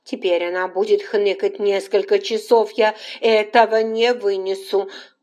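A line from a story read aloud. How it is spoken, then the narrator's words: Loud sob. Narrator (Russian): Полина громко всхлипнула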